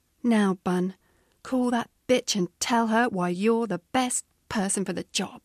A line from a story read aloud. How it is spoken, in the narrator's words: said firmly